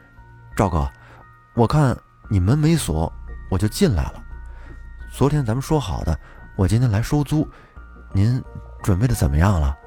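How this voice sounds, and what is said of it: Quiet, hushed speaking. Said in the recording (Chinese): “小声的说了一句”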